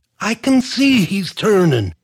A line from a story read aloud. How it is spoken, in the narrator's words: Donnie wailed back